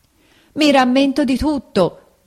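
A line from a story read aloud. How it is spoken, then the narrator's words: Shout. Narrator (Italian): gridò Pinocchio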